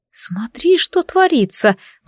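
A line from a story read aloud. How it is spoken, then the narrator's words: Whispered. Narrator (Russian): прошептал Феодора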